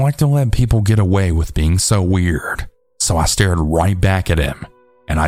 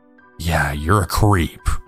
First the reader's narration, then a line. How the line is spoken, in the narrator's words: under my breath